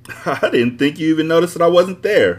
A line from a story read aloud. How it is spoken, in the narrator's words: I laughed because she had a lot of nerve